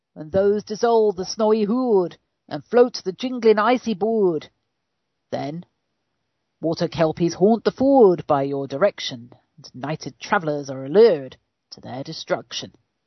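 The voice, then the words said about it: Weak put-on Scottish accent. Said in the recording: “Not a very good Scottish accent.”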